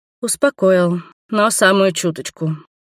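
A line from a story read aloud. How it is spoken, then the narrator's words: Grumbled with heavy sigh. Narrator (Russian): пробурчала я и тяжело вздохнула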